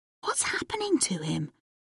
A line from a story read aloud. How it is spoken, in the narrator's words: Stanley whispered